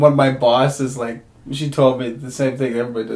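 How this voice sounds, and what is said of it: Usual voice. Nothing is said of it.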